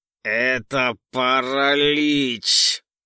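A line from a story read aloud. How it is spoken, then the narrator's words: Through gritted teeth. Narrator (Russian): Сквозь зубы процедил Виллис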